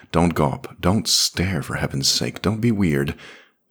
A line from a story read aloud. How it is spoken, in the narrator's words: Moth sighed